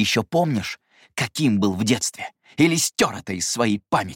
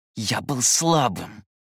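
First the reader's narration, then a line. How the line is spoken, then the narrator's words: Angry whisper. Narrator (Russian): зло прошептал он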